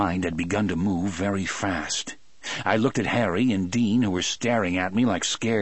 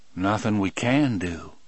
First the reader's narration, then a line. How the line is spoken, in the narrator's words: Brutal said in that same calm voice